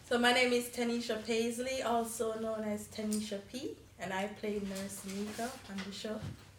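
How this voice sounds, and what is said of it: Jamaican accent. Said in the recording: “You hear the accent. She's Jamaican, y'all. She's Jamaican. From the islands.”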